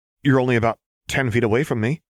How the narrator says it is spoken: Lux said uneasily

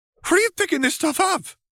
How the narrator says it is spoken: Feferi blurted out

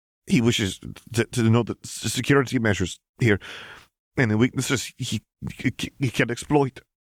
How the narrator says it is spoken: stammered

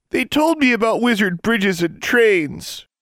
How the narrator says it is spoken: the boy wailed

